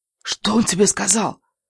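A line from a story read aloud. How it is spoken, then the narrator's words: Whisper. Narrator (Russian): прошептала она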